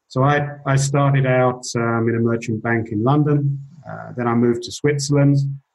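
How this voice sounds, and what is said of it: English accent. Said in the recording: “You can tell from my accent, I'm an English guy”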